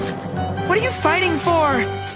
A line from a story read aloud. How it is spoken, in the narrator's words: Abby cried